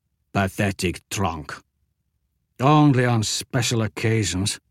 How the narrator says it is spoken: Jagdish muttered

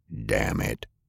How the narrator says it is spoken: muttered

